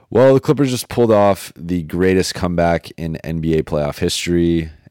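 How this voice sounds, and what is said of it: Tired, low-energy voice. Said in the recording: “an energy depleted episode ... I don't know if you could tell from my voice, from my energy level, it is lower than usual because I am running on 1.5 hours of sleep”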